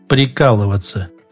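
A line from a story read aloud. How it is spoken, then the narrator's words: Grim. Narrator (Russian): мрачно ответил Шорохов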